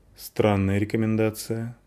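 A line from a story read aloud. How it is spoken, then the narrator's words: Gloomy, smiling woman. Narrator (Russian): мрачно улыбнулась женщина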